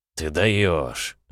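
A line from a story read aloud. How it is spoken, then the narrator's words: Puzzled mutter. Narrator (Russian): озадаченно пробормотал Евлампий Калистратович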